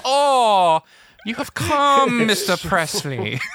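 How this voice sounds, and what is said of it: Mock Bond-villain accent. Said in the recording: “His accent is so beautiful. Like, it's like a Bond villain... So bad.”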